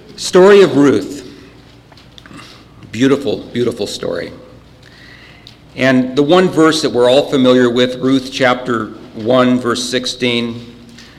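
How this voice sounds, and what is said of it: Choked-up, emotional voice. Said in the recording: “I'm getting all choked up here. You can still hear me. If I have to bark it out”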